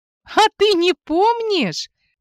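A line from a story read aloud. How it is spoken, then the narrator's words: Giggling stops. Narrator (Russian): перестает хихикать подруга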